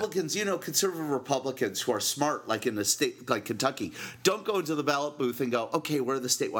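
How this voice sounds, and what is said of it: Usual voice. Nothing is said of it.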